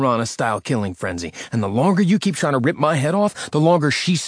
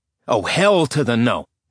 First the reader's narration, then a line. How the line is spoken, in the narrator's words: Nick snapped